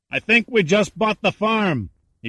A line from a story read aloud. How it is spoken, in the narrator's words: shouted